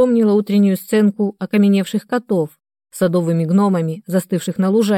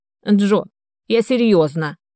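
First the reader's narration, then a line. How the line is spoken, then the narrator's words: Barking old woman. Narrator (Russian): рявкнула старушка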